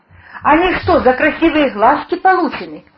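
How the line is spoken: Spiteful insinuating smirk. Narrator (Russian): усмехнулся он зло с намеком

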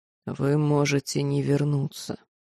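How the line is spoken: Barely audible reminder. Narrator (Russian): едва слышно напомнил маг

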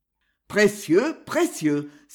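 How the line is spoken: Exclaiming. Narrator (French): s'écria Lautrec

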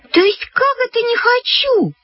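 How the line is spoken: Shouted. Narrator (Russian): закричала Люська

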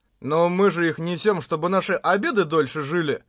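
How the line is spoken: Matter-of-fact tone. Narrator (Russian): Будничным тоном сказал Кирита

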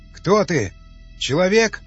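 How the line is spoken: Shouted. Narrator (Russian): крикнул Васнецов

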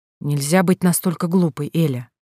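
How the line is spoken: Angry hiss. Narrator (Russian): прошипел он, не столько злой на глупость женщины, сколько на собственное оглушающее желание

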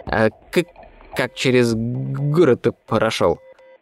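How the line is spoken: Slightly stammering question. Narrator (Russian): Слегка заикаясь, поинтересовались из-за спины

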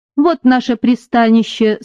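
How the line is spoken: Plain. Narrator (Russian): сказал он

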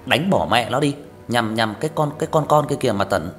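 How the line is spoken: Aggressive shout. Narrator (Vietnamese): Thằng Nam hét lên

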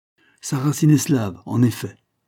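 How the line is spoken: Plain. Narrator (French): dit le colonel

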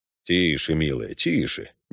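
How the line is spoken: Quiet. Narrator (Russian): негромко сказал

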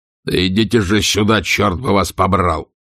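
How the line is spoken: Rough bark. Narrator (Russian): грубо рявкнул

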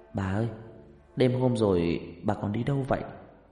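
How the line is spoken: Soft question. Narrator (Vietnamese): Huyền khẽ hỏi

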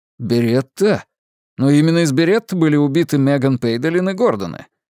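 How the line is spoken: Exclaiming. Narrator (Russian): воскликнул я

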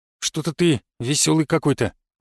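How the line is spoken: Grumbling. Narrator (Russian): пробурчал он

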